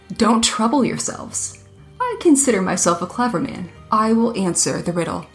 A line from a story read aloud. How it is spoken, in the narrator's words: said with a laugh